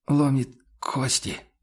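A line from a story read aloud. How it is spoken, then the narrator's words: Pained hoarse objection. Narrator (Russian): с болезненным хрипом возразил Хагнер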